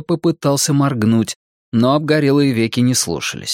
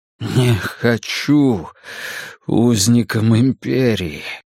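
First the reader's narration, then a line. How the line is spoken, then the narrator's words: Forced out. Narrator (Russian): выдавил он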